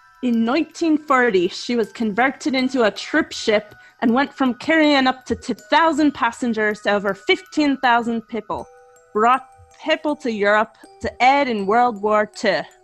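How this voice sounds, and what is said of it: Bad put-on Scottish accent. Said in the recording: “butcher a Scottish accent ... The way you say people.”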